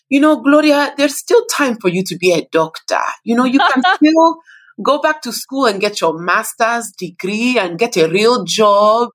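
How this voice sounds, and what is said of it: Imitated Nigerian-accented mother's voice. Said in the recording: “my mom will still, you know, in her Nigerian accent”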